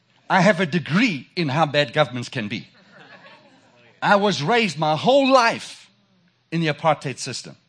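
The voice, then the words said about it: South African accent. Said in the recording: “if you haven't recognized my accent, I'm from South Africa”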